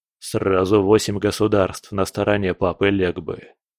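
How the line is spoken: Gloomy report. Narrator (Russian): мрачно доложил скала

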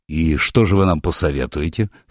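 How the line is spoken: Dry inquiry. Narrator (Russian): сухо поинтересовался мистер Сэдден

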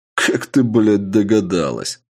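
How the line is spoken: Laughing. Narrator (Russian): рассмеялся я

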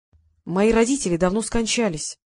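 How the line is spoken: Tired. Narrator (Russian): устало произнес Вадим

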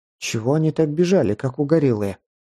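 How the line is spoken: Plain. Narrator (Russian): спросила Анхелика

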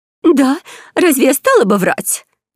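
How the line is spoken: Exclaiming. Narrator (Russian): воскликнула

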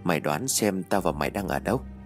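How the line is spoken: Muttering. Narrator (Vietnamese): Hằng nó nhìn từ phía trước, nó lẩm bẩm

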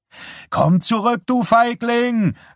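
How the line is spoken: High whiny shout. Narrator (German): rief Norm und gab eine Reihe hoher, wehleidiger Laute von sich

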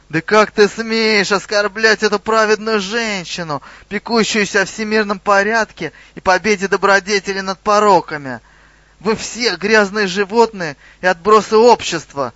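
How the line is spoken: Screaming. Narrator (Russian): завопила Ромашка

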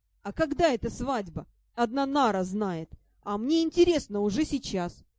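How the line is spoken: Mischievous elf laughing. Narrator (Russian): Вредный эльф рассмеялся

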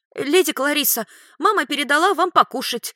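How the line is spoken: Joyful. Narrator (Russian): радостно сообщила она

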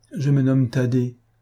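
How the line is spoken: Child's sad, hesitant reply. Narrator (French): répondit tristement l'enfant après un moment de silence et de réflexion

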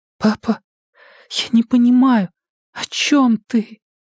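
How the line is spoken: Quiet trembling voice. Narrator (Russian): спросила она тихим дрожащим голосом

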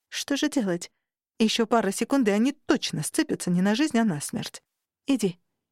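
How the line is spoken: Soft whisper. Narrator (Russian): мягко шепнула я

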